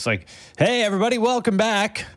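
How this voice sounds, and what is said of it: Exaggerated podcast host voice. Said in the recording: “put on my podcast voice.”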